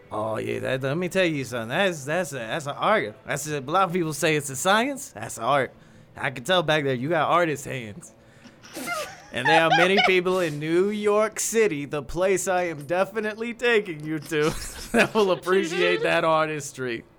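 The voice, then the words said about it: Put-on accent. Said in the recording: “Now I'm getting your accent.”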